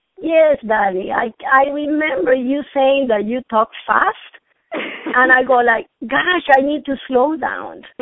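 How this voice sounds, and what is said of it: Venezuelan accent in English. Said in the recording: “beautiful, gorgeous, sexy accent ... my accent is cute ... I'm Venezuelan”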